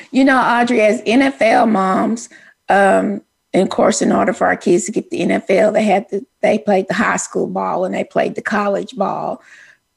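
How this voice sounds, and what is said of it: Country Texas Southern accent. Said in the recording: “you so country. You say the. They play the high school ball. They play the college. ... my country Texas accent.”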